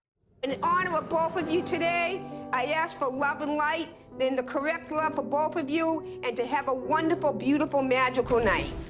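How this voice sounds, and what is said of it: Strong Boston accent. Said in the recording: “This accent is supposed to be directing traffic at Boston Logan Airport. Like, this is not for a love spell.”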